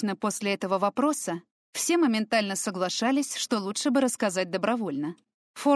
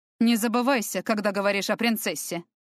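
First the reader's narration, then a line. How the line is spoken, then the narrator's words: Cold. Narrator (Russian): холодно произнес Фортем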